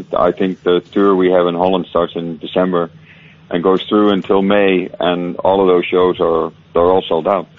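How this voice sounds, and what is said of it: Mixed Irish and Dutch accent. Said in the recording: “you were originally from Ireland, and then you've moved over there, and that's why you've got this delicious mix of the two accents. ... You keep going one way and then back the other.”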